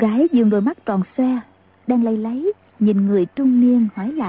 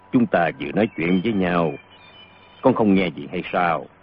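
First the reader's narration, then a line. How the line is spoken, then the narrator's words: Middle-aged man sighing. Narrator (Vietnamese): Người trung niên thở dài nói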